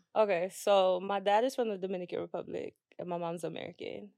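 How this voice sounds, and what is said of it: Speaks with a noticeable accent. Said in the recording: “I love your accent. ... that's probably why y'all hear the accent”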